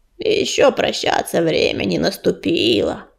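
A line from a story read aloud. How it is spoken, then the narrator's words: Badger grumbling. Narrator (Russian): проворчала барсучиха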